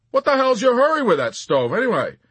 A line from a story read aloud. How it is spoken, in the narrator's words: he barked out a moment later in spite of himself